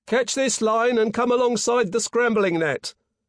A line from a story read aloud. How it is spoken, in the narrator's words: yelled a voice on the forecastle